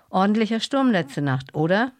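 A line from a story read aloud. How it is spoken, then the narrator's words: Calling across. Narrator (German): rief zu ihm rüber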